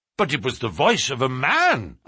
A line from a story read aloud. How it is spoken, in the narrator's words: cried